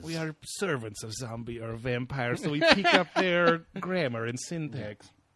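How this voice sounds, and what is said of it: Classic zombie voice. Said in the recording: “I'm doing a classic zombie voice.”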